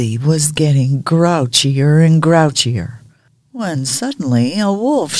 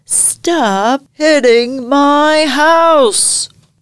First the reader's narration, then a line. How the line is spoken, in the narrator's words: Hildie cried